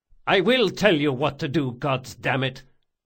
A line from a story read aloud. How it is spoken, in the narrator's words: Locke spat